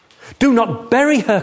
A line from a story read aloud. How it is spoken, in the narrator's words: cried the third